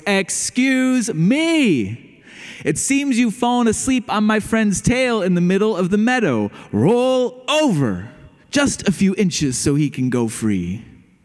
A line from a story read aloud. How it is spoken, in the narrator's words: he shouted with all of his voice